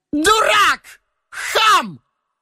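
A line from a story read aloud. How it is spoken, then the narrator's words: Woman shouting. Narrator (Russian): Это кричала та самая простоволосая женщина с голыми руками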